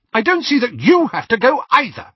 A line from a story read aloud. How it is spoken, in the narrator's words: she snapped, dropping all pretense now